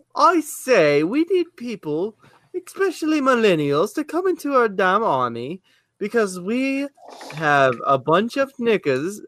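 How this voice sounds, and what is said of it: Attempted English accent. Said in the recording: “I don't know how to do an English accent. I am so sorry for all you English people out there.”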